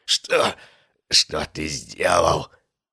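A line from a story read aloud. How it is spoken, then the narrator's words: Strained whisper. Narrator (Russian): с трудом выдавил из себя шепот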